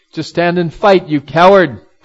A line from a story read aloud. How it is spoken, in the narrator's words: cried Rukmi, who gave a laugh